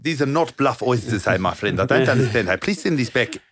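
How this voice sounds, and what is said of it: South African accent impression of Matt Stevens. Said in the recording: “what's the South African prop called again? ... Matt Stevens. He's actually English ... with that accent.”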